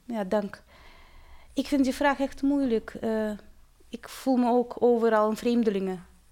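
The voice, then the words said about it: Slight Russian accent in Dutch. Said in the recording (Dutch): “je bent een Russische ... ik voel me heel erg Nederlands, met een accentje ... Charmant accent hoor.”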